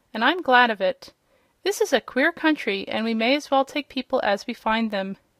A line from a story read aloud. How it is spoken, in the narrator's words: said Uncle Henry, with a laugh